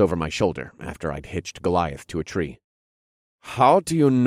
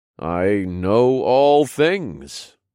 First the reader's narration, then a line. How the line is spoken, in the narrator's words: I replied in a godly voice